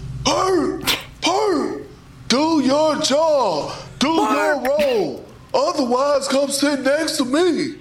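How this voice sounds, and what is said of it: Impression of Doc Rivers. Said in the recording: “Can you do a Doc Rivers, our new teammate?”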